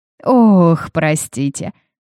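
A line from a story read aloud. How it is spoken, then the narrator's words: Short laugh. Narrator (Russian): хохотнула Бернадет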